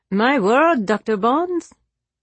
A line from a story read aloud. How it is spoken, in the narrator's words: the Marquis said in a teasing voice